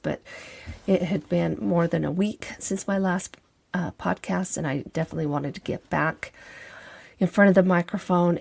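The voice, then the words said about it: Scratchy voice. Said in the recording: “apologize for my voice ... I'm just coming out of a cold ... my scratchy voice”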